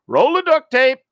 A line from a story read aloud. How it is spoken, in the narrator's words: Boy yells back